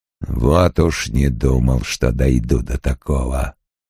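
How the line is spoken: Hoarse. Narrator (Russian): Крэмер хрипло сказал

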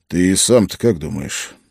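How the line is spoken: Sighing. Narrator (Russian): он вздохнул

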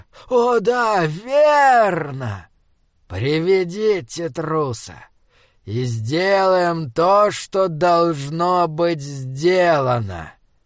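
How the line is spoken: Melodious voice. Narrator (Russian): Господин первый заговорил мелодичным голосом

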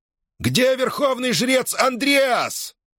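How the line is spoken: Shout. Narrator (Russian): крикнул он

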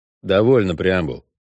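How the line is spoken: Dry suggestion. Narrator (Russian): сухо предложил ведьмак

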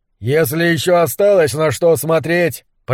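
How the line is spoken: Shouting over whistling wind. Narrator (Russian): прокричал сквозь свист ветра Немрод

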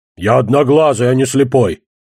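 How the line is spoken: Bark. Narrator (Russian): рявкнул второй колдун

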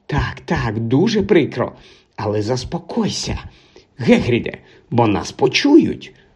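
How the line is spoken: Whisper. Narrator (Ukrainian): шепотіла професорка МакГонагал

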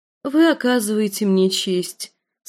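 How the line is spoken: Gentle, affectionate. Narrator (Russian): сказала она ласково

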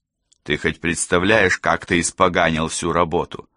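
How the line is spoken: Cold question. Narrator (Russian): холодно спросил О'Келли

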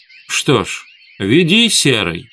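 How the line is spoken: Exclamation. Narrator (Russian): воскликнула она

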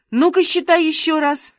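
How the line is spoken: Shout. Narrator (Russian): закричал Шишкин

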